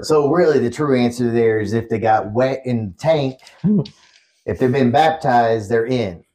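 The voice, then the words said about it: Southern US accent. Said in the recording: “I love your Southern accent. It's phenomenal.”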